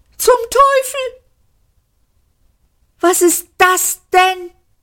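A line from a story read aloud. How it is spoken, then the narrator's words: Shrieked. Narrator (German): kreischte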